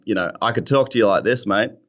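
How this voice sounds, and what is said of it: Broad Australian accent. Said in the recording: “accent... but I'm just going to turn that off for the blog”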